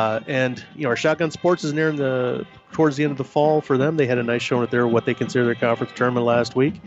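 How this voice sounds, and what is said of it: Usual voice. Nothing is said of it.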